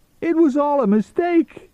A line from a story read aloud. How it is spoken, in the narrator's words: he pleaded